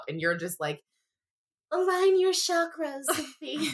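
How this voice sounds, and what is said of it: Mocking attempt at calm, peaceful voice. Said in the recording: “said in a very mimicking tone ... it was meant to be more of a peaceful tone, but I can't achieve that right now ... not so much making fun, more of me attempting peace”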